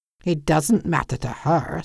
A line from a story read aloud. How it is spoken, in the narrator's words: Sam muttered